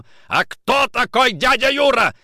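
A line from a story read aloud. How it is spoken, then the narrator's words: Shout. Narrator (Russian): закричал Никитин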